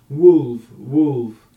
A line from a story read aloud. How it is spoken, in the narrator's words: howling